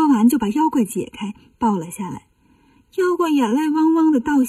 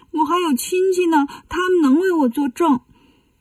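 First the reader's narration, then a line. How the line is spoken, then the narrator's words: Frightened crying. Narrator (Chinese): 妖怪有点害怕，但是哭着说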